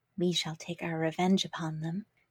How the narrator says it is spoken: whispered the little ones

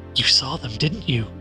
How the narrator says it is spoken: Helen whispered

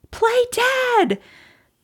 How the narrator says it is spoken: Amie shouts back

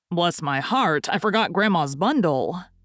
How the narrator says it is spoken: Lorry cried out

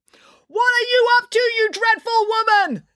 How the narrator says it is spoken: Nanny Piggins yelled

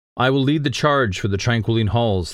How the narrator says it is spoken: the man shouted

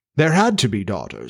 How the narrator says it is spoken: said Jones calmly

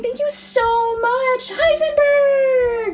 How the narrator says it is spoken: She shouts

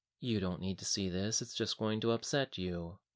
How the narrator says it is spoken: Leoric said in a soft tone

